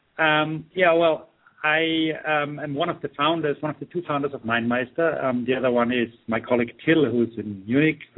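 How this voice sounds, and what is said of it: Austrian-accented English. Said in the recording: “I'm Austrian. I live in Austria. ... it didn't really help my English, so I apologize in advance for the the Arnie type of accent that you're going to be hearing now.”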